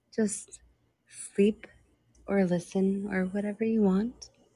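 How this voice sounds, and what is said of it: Sultry, sexy voice. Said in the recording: “Welcome to my sexy voice ... everybody likes your sexy voice”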